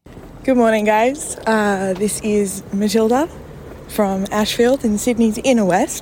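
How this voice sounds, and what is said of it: Strained, worn-out voice. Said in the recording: “My voice is a little bit worse for Thursday.”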